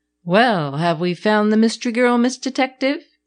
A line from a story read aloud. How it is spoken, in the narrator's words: asked teasingly